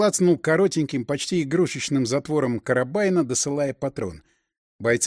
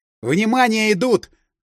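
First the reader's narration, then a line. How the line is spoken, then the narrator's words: Yell. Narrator (Russian): заорал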